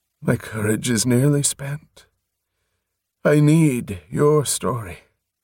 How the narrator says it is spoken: he breathed

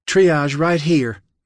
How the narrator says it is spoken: Michaela shouted

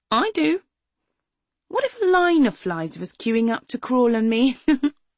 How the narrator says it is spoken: She laughed

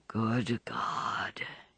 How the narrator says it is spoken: he groaned

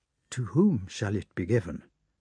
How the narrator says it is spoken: the Emperor Alexander asked Kozlovsky in Russian in a low voice

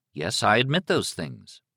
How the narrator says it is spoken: Liz said evenly

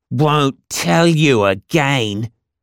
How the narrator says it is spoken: the bigger boy growled

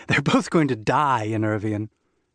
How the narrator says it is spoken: Irina said through a laugh

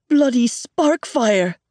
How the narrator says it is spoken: Rock splutters, doubling over

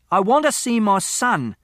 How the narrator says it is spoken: He was shouting

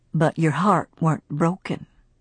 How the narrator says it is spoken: Will said calmly

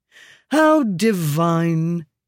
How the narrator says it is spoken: he said lazily

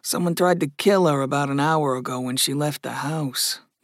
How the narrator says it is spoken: Mark murmured

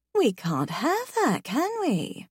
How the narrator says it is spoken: I purr

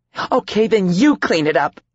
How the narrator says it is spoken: she shouted

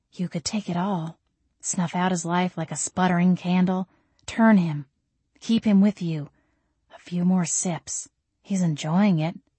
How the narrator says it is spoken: This sly, creepy voice in my head whispered

